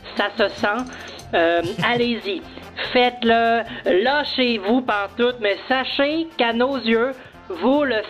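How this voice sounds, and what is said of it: Québécois French accent. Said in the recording (French): “on parle de l'accent québécois. On a reçu un coup de fil avec un message d'une Québécoise”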